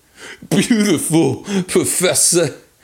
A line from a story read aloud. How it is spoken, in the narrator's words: he howled